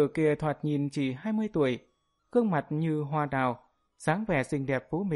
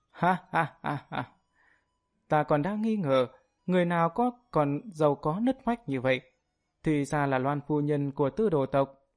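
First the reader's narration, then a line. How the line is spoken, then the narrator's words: Laughing loudly. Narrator (Vietnamese): Lôi Ngao cười lớn, nói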